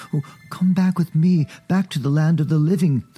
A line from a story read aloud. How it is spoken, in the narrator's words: the boy pleaded